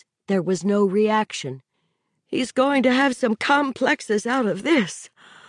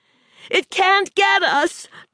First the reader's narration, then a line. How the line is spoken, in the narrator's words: Donna shouted at him